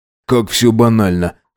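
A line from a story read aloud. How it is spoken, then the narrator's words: Smirking snort. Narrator (Russian): хмыкнул Макс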